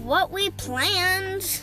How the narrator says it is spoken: she yelled

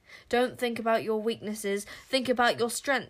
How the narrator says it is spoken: shouted Caliburn

